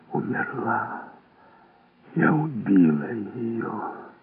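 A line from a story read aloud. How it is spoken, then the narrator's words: Barely audible whisper. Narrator (Russian): губы едва слышно шепчут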